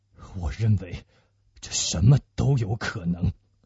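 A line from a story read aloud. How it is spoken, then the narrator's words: Low voice. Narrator (Chinese): 他低声地说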